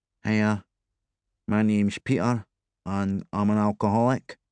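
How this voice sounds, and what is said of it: Flat regional accent, flattened vowels. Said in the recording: “a flat Ouija accent ... flattening his vowels, spitting out the story as if he were angry”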